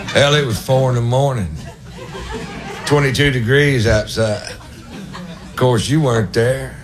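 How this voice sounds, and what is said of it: Imitates another person's voice. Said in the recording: “my impression of my cousin Ray after the big kill”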